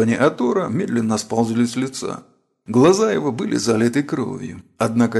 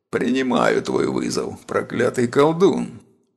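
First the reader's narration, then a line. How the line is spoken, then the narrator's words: Hoarse rasp. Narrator (Russian): прохрипел он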